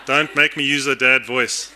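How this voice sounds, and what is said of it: Shouting loudly. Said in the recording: “I'm speaking pretty loud... Now I'm shouting.”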